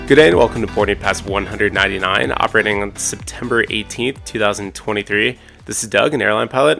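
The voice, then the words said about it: Hoarse, tired-sounding voice. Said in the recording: “hear it in my voice, I'm hoarse. I sound tired.”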